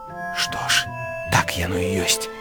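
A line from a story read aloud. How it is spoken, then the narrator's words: Quiet. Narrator (Belarusian): ціха сказаў Гары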